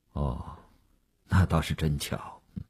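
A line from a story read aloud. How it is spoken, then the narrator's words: Flat, indifferent. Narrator (Chinese): 吴长天淡淡地说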